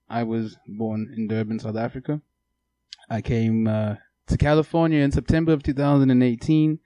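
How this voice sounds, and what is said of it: Non-American accent. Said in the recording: “some of you can tell that I am not American to my accent”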